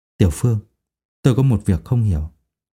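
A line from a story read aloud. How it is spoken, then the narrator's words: Cautious, lowered voice. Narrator (Vietnamese): Thầy Châu nắm số tiền trong tay, trầm tư một lúc, lại nhìn trước nhìn sau, bên trái bên phải, hạ giọng nói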